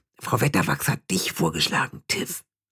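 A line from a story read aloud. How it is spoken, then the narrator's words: Guilty whisper. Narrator (German): flüsterte wie schuldbewusst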